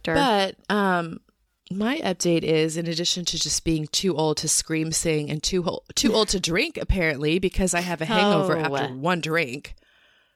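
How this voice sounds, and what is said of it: Hoarse voice. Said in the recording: “right now I'm hoarse ... my weird voice iterations”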